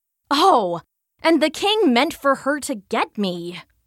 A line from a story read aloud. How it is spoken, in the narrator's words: Perseus snarled